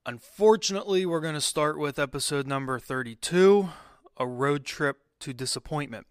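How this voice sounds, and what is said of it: Disappointed tone of voice. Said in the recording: “I'm sure you can hear the disappointment in my voice.”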